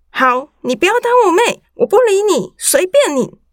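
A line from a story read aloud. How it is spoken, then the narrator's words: Angry yelling. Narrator (Chinese): 我也吼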